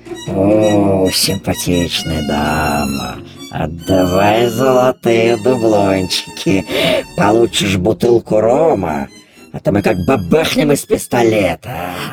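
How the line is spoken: Hoarse pirates. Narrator (Russian): Захрипели пираты

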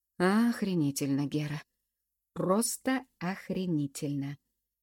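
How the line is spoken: Drawled. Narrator (Russian): протянул

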